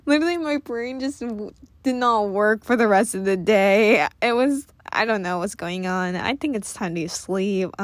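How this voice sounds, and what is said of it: Tired, worn-out, nasal, croaky voice. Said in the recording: “I'm getting really tired now. You can tell by my voice like it's getting worn out... this is what my voice sounds like when I'm tired... It's kind of nasally at the same time. It's very like croaky”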